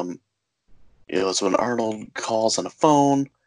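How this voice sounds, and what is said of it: Usual voice. Nothing is said of it.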